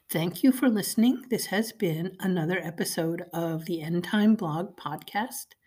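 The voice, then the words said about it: Hoarse, froggy voice. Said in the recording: “Forgive my froggy voice. I've got a cold.”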